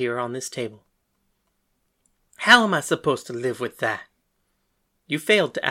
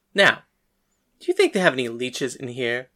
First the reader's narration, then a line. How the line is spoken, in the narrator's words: Hades laughed